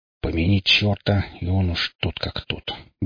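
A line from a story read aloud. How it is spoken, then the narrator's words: Old man's grumble. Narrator (Russian): буркнул старый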